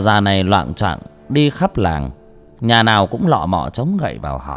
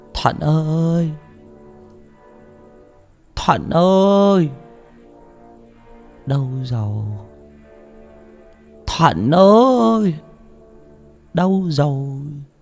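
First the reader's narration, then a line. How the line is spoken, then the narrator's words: Desperate repeated calling. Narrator (Vietnamese): luôn miệng gào gọi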